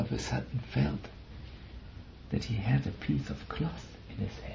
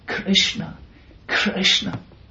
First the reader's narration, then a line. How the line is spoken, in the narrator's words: He cried